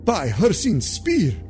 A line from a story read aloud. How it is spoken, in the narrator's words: the Khajiit researcher exclaimed